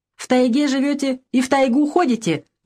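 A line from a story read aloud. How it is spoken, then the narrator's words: Loud laughter. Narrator (Russian): громко рассмеялся брат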